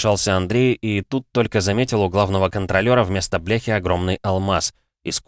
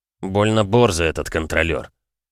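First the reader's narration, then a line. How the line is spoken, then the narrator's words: Displeased grumble. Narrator (Russian): недовольно буркнул Влад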